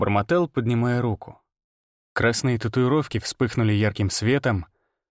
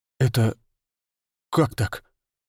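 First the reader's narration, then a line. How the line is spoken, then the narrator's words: Breathless exhale. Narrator (Russian): выдохнул я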